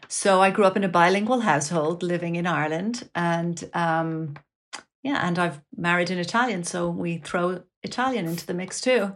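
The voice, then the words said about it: Slight Irish accent. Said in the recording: “you have a bit of an Irish accent”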